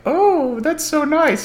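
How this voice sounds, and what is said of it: Generic female character voice. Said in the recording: “did my generic female voice”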